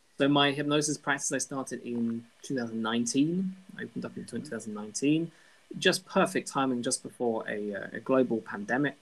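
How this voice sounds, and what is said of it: British accent. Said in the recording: “my very British accent”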